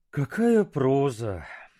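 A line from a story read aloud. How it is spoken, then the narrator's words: Sighing. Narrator (Russian): вздохнул он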